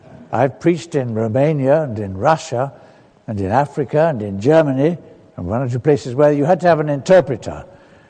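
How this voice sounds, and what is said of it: Non-Scottish accent. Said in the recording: “I love your Scottish accents. I'm sorry I've come with my accent. It's not like yours.”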